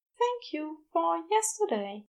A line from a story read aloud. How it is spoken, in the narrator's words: the angel said softly